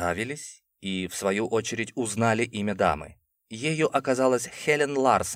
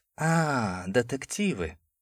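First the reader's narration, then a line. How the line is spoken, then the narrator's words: Mocking drawl. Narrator (Russian): протянула миссис Ларсон насмешливо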